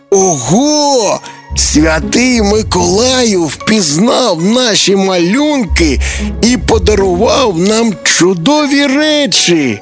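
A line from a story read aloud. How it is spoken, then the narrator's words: Joyful. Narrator (Ukrainian): Радісно сказав Тимко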